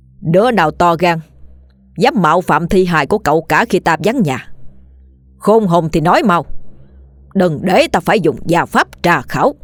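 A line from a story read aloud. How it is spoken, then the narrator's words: Stern voice. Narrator (Vietnamese): nghiêm giọng nói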